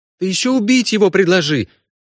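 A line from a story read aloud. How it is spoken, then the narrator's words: Indignant shout. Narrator (Russian): возмущенно выкрикнула Ксана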